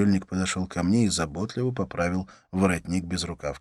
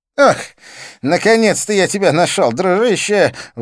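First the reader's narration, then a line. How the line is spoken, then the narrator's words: Exclaiming, coughing, breathless. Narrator (Russian): воскликнул он, закашлялся, шумно перевел дух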